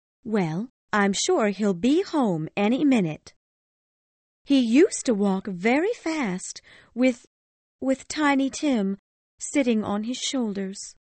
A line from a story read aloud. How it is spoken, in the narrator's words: Cratchit said in a steady, cheerful voice